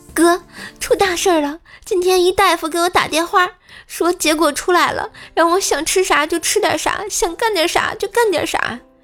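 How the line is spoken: Tearful complaining. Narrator (Chinese): 女同学突然找我哭诉说

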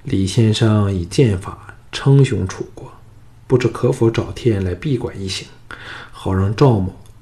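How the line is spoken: Low, resentful voice. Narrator (Chinese): 赵霸心中不忿，沉声说

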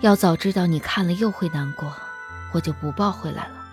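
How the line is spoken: Soft sigh. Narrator (Chinese): 张思年轻轻叹了口气

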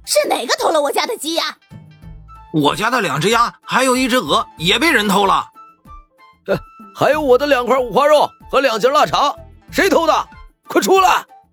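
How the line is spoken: Angry shouting crowd. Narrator (Chinese): 这些人的吼声

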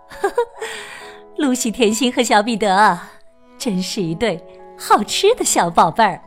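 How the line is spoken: Giggling, gentle. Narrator (Chinese): 他咯咯笑着，温柔说道

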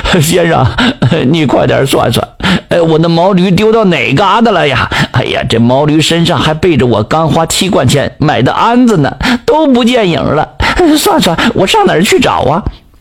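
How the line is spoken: Panting old man. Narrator (Chinese): 做豆腐那老王头呼哧带喘的边擦着汗边说

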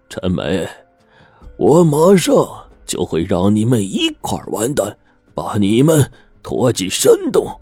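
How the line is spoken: Cold sneer. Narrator (Chinese): 周豹冷笑一声说

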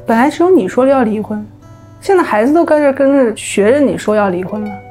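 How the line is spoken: Calm, detached. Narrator (Chinese): 他依然是那么淡淡的，好像什么事儿都没有发生过的，对我妈说

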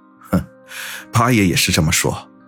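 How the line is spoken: Wry rueful tone. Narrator (Chinese): 姚远苦笑说道

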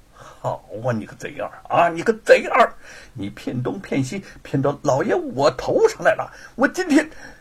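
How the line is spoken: Furious cursing through gritted teeth. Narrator (Chinese): 罗万金……咬牙切齿的骂道

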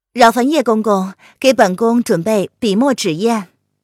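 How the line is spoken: Calm, detached. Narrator (Chinese): 他朝着叶安淡淡的开口道

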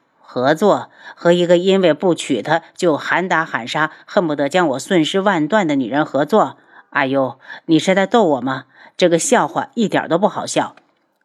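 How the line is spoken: Cold sneer. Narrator (Chinese): 无双冷笑

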